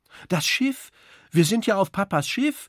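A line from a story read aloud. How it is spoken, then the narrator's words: Calling out. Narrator (German): ruft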